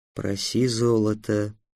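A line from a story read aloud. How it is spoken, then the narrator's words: Whisper. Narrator (Russian): прошептал Васап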